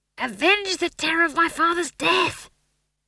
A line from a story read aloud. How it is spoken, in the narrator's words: he hissed